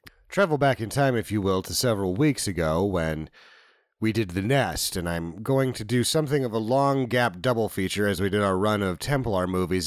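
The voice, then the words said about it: Announcer-style radio voice. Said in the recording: “I'm going to use my radio voice now.”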